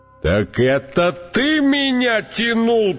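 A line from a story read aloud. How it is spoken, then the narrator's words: Elephant's roar. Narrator (Russian): проревел слон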